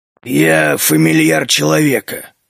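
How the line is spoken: Curt grumble. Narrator (Russian): коротко буркнул Клык

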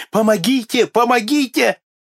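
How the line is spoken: Desperate choking screams. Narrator (Russian): Несчастный, схваченный щупальцами спрута, задыхался и отчаянным голосом кричал

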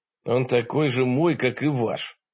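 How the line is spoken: Grumbled. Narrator (Russian): буркнул я

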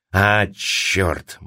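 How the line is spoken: Gruff mutter. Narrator (Russian): буркнул он

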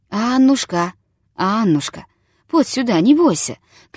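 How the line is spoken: Gentle call, old man. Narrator (Russian): кликнул старик ласково

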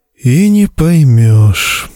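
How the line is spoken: Sad. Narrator (Russian): грустно произнес кто-то

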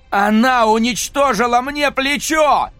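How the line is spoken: Wailing yell. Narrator (Russian): вопил Джек

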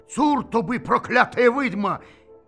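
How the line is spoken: Frightened shout. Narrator (Russian): Это показалось казаку так страшно, что он крикнул

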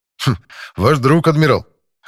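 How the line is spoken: Skeptical grunt. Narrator (Russian): хмыкнул я

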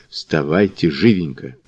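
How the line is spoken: Whispered urging. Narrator (Russian): Он шепотом поторопив

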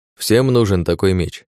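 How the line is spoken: Snort. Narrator (Russian): хмыкнул Александр

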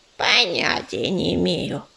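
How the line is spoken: Grumbling. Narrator (Russian): проворчал Корявый

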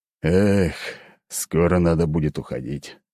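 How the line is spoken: Sigh. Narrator (Russian): вздохнул Леонид

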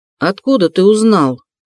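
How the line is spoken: Confused question. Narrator (Russian): спросил тот растерянно

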